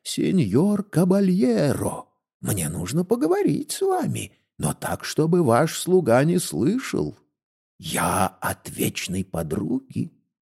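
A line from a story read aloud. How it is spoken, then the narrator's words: Old woman's whisper. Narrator (Russian): какая-то старуха зашептала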